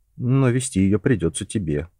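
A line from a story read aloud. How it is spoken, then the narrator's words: Dejected. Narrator (Russian): уныло проговорил Джон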